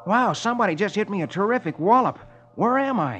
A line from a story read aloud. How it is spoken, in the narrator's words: His head hurts, and he exclaims